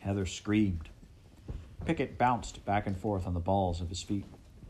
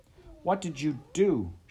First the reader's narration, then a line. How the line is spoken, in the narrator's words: pleaded